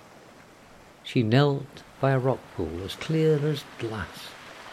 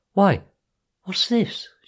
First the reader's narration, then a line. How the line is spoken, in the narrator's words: cried